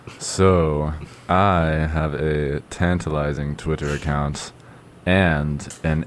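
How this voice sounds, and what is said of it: Deep radio announcer voice. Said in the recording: “I'll go back to my deep radio voice for fun effect.”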